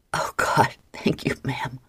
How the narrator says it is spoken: Michael gasped

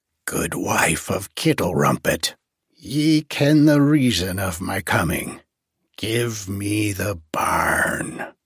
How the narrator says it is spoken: said in her harsh and merciless voice

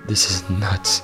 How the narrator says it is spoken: he muttered

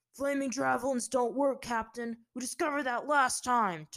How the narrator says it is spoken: Tyro bellowed

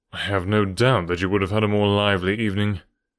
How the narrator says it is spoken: said Holmes dryly

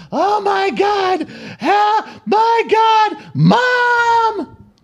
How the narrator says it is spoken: She's screaming

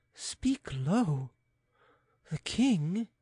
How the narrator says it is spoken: replied Andrea, looking timidly around

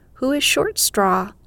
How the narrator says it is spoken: straw holder cries

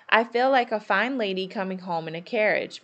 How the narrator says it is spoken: Meg said

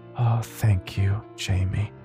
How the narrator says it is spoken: mother sighed intensely in relief almost whisper

